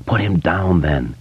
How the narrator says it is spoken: his mind whispered

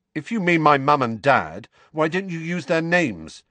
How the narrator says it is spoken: said Harry loudly

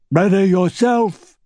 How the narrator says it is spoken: one shouted

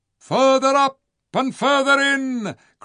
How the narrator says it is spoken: cried Jewel

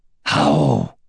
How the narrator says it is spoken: she growled with her mind

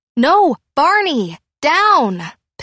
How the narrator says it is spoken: Pip shouted

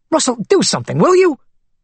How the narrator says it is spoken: He snapped at his lawyer

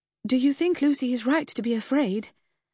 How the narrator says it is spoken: I began breathlessly

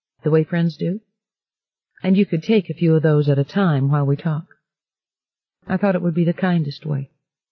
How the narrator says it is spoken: Bobby said evenly

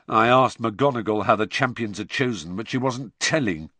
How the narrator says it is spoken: said George bitterly

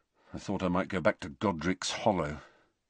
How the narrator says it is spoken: Harry muttered

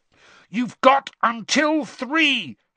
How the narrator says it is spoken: Harry shouted

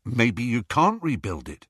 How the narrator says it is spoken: Harry replied

